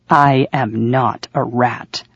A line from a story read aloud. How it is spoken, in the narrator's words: I said through clenched teeth